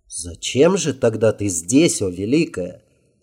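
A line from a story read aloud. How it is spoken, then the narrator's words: Plain. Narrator (Russian): спросил он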